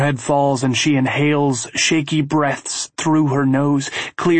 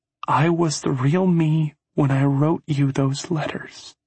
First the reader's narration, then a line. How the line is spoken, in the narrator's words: says quietly